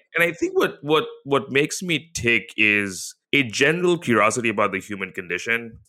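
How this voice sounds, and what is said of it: Mixed, mostly American accent. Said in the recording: “have a weird accent, which is probably 75% American and 25% others”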